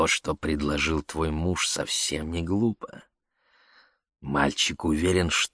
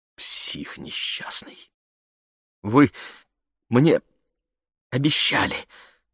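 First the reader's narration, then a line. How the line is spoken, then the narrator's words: Stammering. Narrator (Russian): заикаясь, произнесла она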